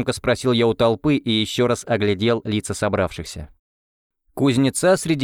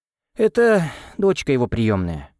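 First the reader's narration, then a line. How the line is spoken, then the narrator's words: Bitter sigh. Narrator (Russian): вздохнула Марфа с горечью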